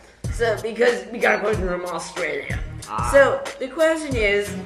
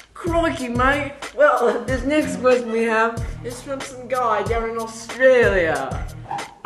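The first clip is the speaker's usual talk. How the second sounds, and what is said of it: Really bad put-on Australian accent. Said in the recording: “why are you talking in a really, really bad Australian accent?”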